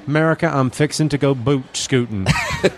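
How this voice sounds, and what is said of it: Put-on Texan accent. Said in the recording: “I like the accent down here. You don't pronounce the A in Texas. ... Texans.”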